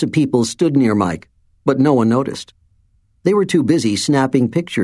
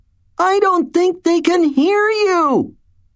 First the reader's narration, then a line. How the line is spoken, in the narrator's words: she yelled